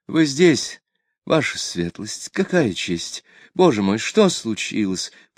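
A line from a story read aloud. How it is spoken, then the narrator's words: Trembling voice. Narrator (Russian): сказала дрожащим голосом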